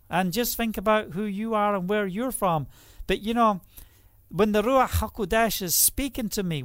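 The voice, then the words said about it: Scottish accent. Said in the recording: “I'm Scottish ... I have a Scottish accent, somewhat”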